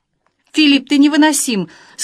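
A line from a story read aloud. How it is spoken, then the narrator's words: Tearful cry. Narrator (Russian): со слезами в голосе выкрикнул ангел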